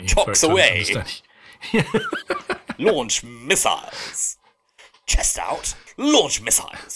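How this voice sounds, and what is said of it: Clipped upper-class English accent. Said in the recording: “a very clipped kind of English upper-class accent”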